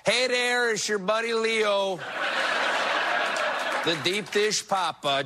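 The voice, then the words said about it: Put-on Chicago accent. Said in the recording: “He was born in Chicago. This means officially I can no longer imitate the Pope using an Italian accent. From now on, the Pope's going to sound like this.”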